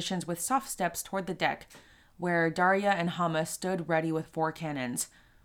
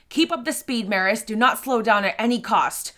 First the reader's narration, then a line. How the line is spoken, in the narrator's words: Rhonda yelled toward the young Maris